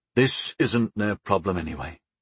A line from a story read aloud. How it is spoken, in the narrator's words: sighed